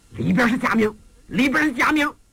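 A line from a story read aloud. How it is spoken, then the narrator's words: Shouting from outside. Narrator (Chinese): 外边有人喊上了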